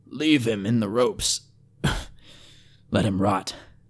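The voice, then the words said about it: Hoarse voice. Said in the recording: “came a hoarse voice”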